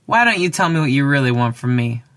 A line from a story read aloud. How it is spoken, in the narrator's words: said the raptor